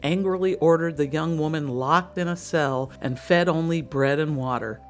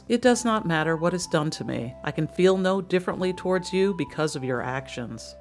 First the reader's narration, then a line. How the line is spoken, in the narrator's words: said in a quiet voice